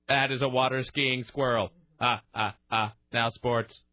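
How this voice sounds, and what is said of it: Funny robot voice. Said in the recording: “you would give it the funny robot voice”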